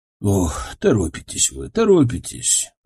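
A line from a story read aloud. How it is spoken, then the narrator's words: Sighed. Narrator (Russian): Вздохнул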